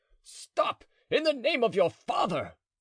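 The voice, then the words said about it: Shouting very loudly. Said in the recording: “in a very loud voice”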